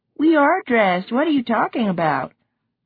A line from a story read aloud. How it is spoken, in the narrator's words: with a laugh